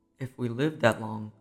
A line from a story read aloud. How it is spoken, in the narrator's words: said his wife in a quiet voice